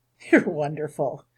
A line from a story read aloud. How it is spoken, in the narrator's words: Grant says through his chuckles